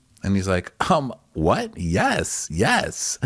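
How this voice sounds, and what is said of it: Imitated Nigerian accent. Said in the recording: “is that a Nigerian accent? ... he does a full-on accent”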